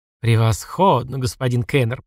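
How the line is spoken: Purring. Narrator (Russian): промурлыкала

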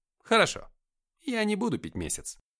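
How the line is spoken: Cheerful. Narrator (Russian): бодро сказал

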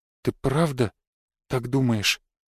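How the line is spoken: Near-whispered question. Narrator (Russian): Почти шепотом спросила она

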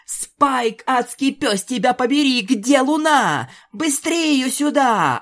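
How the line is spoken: Hoarse yelling. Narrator (Russian): охрипшим голосом орала Пегаска

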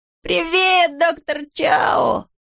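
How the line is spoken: Joyful yell. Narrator (Russian): радостно завопил он

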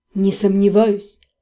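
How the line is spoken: Soft. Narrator (Russian): мягко сказал

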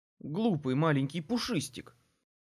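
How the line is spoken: Grumble. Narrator (Russian): Буркнул

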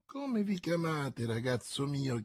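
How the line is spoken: Plain. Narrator (Italian): chiese Athos

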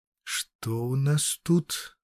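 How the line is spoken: Thoughtful mumble. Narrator (Russian): задумчиво пробормотала она

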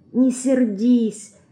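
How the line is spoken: Very quiet whisper. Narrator (Russian): еще тише шепчет мышка

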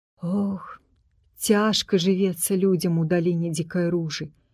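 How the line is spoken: Sighing. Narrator (Belarusian): уздыхнула Эльфрыда

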